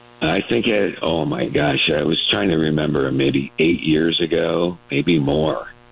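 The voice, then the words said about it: Deep, unusual voice. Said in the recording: “You can tell by this deep... by your voice. You have an unusual voice... By the deep voice.”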